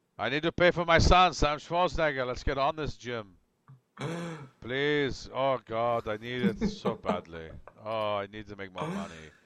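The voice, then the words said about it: Impersonation of another person's voice. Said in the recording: “That is a fantastic impersonation ... Stands out. Stands out terribly well.”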